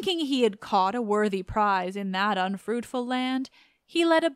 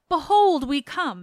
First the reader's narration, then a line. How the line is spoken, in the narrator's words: Opheltes, first of my companions, cried